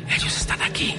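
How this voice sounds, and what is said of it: Whispered words. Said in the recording (Spanish): “tenemos que hacerlo con el susurro ... con ese susurro característico”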